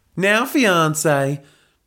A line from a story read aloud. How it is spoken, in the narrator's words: drawled Helga in her southern Texan accent